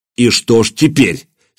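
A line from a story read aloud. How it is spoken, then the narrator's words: Angry. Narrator (Russian): сердито произнес Владимир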